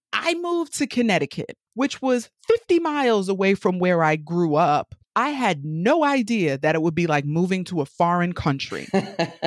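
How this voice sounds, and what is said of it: New York accent. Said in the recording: “Just in case you haven't caught the accent by now, I'm from New York, born and raised.”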